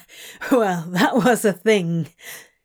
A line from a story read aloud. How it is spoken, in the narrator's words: he laughed breathlessly